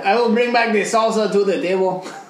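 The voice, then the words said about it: Put-on accent. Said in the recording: “You just got to do the right accent.”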